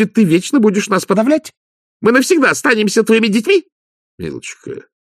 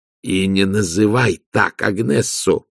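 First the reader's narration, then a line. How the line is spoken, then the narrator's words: Growling. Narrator (Russian): прорычал Влад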